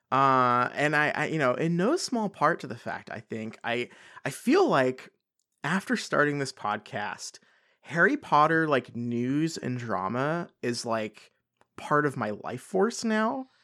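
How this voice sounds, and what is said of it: Congested voice from a cold. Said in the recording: “you can probably hear it in my voice. I've got a cold. ... I'm a little bit under the weather.”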